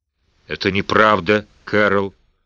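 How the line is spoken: Mumble. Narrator (Russian): пробормотал Дигби

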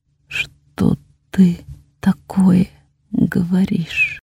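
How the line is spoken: Quiet, strained, brittle whisper. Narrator (Russian): Мой тихий шепот вырвался из сведенного судорогой горла и осел ломким вопросом

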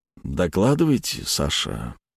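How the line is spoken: Purring, greedy. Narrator (Russian): почти промурлыкал он, жадно пожирая ее глазами

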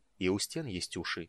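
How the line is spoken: Soft. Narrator (Russian): мягко сказал Рейстлин

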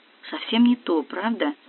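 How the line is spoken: Quiet close question. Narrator (Russian): наклонившись ко мне, тихо спросил Стас

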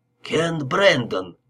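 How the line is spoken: Male exclamation. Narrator (Russian): воскликнул он

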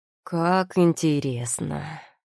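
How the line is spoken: Drawn-out drawl. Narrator (Russian): протянул Виллиан

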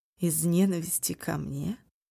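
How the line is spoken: Cold question. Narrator (Russian): холодно спросил Хоиль

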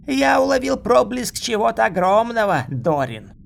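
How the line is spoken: Shout. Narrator (Russian): крикнул Дальханезис

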